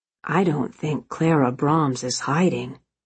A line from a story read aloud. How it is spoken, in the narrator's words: he said in a conspiratorial tone